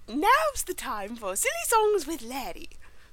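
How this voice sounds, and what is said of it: Imitates a cartoon show voice. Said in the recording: “you're so good at imitating that voice. Do it again.”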